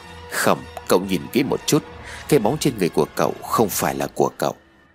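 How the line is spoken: Quiet, serious. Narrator (Vietnamese): Chú Trung Liên, khuôn mặt nghiêm cẩn, nhỏ giọng rồi nói

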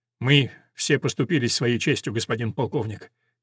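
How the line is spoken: Quiet reply. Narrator (Russian): тихо отвечает Тамаринда

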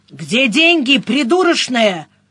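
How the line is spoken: Barking. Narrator (Russian): рявкнул Максим

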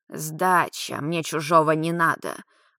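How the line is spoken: Grumbling old woman. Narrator (Russian): Буркнула старушка

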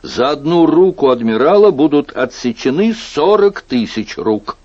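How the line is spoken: Loud exclamation. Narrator (Russian): воскликнул и очень громко

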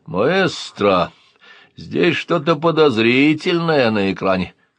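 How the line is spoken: Crackling loudspeaker voice. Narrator (Russian): захрипел динамик и голосом катарсиса сказал

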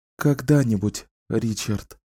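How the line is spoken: Mutter. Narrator (Russian): пробормотала

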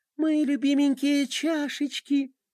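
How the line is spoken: Cooing. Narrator (Russian): проворковала Пинки

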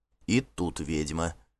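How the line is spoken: Low-voiced remark. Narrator (Russian): вполголоса заметил Гельт

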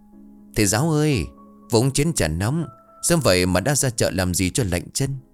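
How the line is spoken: Smiling. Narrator (Vietnamese): Lương mỉm cười

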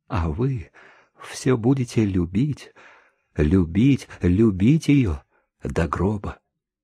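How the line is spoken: Composed whisper. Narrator (Russian): Она уже вполне овладела собой и прошептала

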